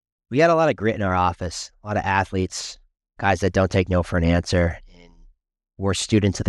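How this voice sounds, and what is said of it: Usual voice. Nothing is said of it.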